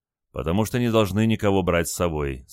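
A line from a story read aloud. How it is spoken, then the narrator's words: Calm reply. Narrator (Russian): спокойно ответил лейтенант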